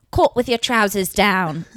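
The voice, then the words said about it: Attempted British accent. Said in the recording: “I literally can't do a British accent... That wasn't that bad.”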